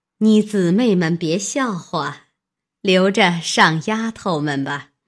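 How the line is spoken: Laughing. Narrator (Chinese): 南安太妃笑道

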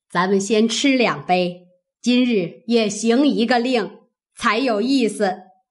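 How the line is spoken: Old woman, laughing. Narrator (Chinese): 贾母先笑道

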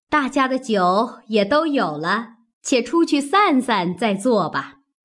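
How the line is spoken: Laughing. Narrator (Chinese): 薛姨妈笑道

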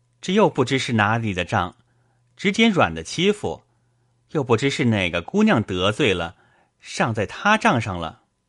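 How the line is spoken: Sighing. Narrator (Chinese): 宝玉叹道

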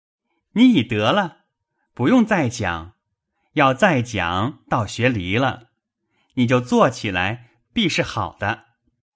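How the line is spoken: Laughing loudly. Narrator (Chinese): 宝玉大笑道

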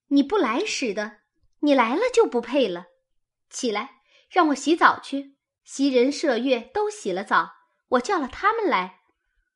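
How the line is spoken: Laughing. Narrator (Chinese): 晴雯没得说，吃的又笑了，说道

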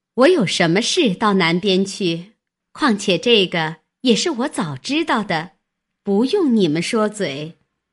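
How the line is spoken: Laughing. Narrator (Chinese): 探春笑道

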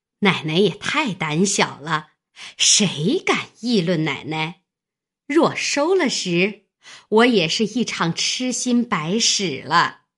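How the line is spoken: Laughing. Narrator (Chinese): 旺儿媳妇笑道

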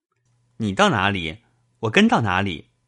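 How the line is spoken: Laughing. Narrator (Chinese): 宝玉笑道

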